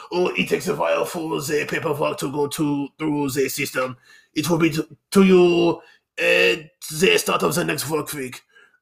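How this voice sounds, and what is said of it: Bad put-on foreign accent. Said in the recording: “I know it's a terrible accent, I'm going to offend somebody”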